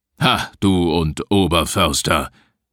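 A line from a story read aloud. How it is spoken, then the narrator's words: Grim growl. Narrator (German): knurrte Rodenstein grimmig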